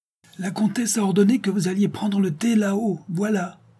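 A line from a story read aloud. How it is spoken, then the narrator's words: Shouted. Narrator (French): cria Lyris aux pieds nus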